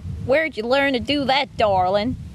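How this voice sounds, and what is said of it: Put-on Southern Alabama accent. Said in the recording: “Should we try it in an Alabama accent?... it's like Southern, isn't it?... Pretty good. I like it.”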